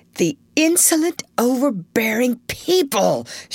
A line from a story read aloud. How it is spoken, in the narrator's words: fiercely exclaimed